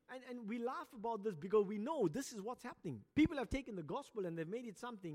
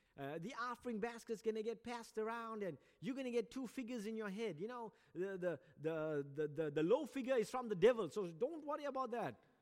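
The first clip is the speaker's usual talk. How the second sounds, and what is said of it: Put-on American accent. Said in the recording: “I like to teach in an American accent”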